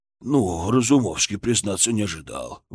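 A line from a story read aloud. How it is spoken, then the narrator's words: Breathed out. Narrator (Russian): выдохнул он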